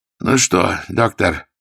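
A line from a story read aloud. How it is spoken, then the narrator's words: Trembling voice. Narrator (Russian): спросил дрожащим голосом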